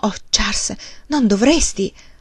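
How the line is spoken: Exclaimed. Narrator (Italian): lei esclamò

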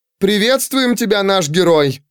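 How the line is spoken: Shouted with delight. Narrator (Russian): восторженно крикнула Фрина

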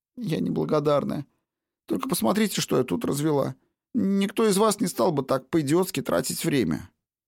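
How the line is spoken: Sobbing reply. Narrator (Russian): Все еще всхлипывая, Бонни ответила

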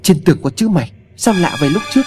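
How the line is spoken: Loud shout. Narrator (Vietnamese): cậu hét to

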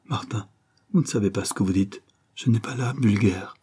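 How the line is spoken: Said weakly. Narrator (French): dit-elle faiblement

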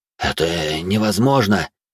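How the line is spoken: Bewildered soldier. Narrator (Russian): растерянно произнес кто-то из бойцов

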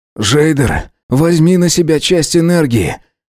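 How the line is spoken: Hoarse, feverish. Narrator (Russian): Хрипло проговорил

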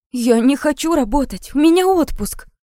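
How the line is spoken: Indignant exclamation. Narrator (Russian): возмущенно воскликнула Настя

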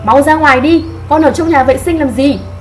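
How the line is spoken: Loud shout. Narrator (Vietnamese): ông Cao lại hét lớn

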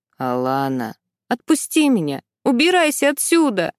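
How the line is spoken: Sobbing. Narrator (Russian): Всхлипываю я

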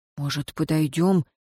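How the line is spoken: Quiet question. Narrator (Russian): тихо спросил Рыжий

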